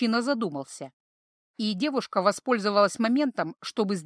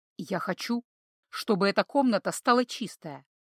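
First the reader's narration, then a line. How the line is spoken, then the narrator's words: Calm. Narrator (Russian): спокойно произнес он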